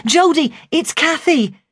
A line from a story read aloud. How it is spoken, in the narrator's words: her screams drowned out my cry